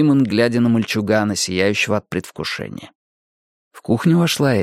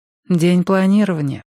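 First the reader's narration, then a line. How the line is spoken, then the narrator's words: Sighing. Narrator (Russian): вздохнула Эдит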